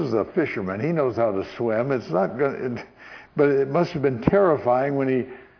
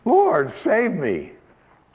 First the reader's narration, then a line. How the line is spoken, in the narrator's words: he cried out, saying